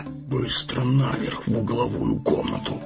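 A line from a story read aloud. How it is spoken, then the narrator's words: Whisper. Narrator (Russian): шепнул странник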